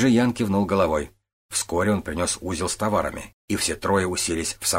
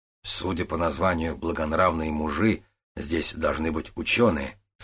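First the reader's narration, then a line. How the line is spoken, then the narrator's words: Plain. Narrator (Russian): сказал Додзигун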